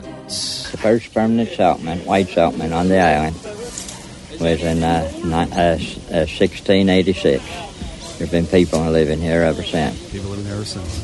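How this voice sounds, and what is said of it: Tangier Island accent, hard to understand. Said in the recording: “speaking in a weird accent ... It's from Tangiers Island ... the closest accent here in America to the original colonial American accent ... it sounds like a complete other language ... You can barely understand what they're even saying ... the Tangier Island accent”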